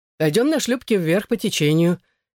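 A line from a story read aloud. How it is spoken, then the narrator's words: Cheerful suggestion. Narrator (Russian): весело предложил я Корлье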